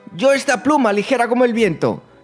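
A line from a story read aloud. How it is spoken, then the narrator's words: Excited shout. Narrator (Spanish): gritó entusiasmada Yaisa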